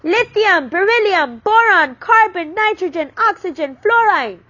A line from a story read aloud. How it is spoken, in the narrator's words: She shouted the words at her father